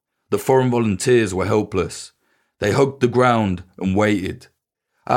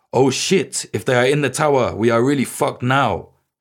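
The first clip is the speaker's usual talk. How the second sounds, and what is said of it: Strong French accent. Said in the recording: “In this strong French accent”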